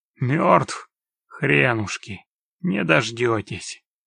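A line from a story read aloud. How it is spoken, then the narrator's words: Angry hoarse rasp. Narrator (Russian): Откашлившись, Геральт зло прохрипел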